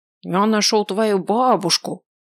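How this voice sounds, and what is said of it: Nasal, mocking imitation. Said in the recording (Russian): “Гнусаво передразнила она.”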